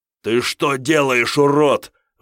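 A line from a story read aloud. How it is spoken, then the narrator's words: Roared. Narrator (Russian): взревел Кирилл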